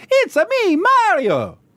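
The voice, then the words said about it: Mario impression, Italian accent. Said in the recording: “That's pretty good. ... bunging on an accent like that”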